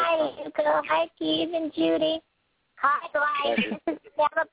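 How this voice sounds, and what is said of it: Usual voice. Nothing is said of it.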